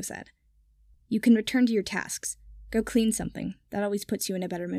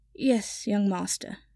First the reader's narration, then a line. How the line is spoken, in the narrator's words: Kipper said sleepily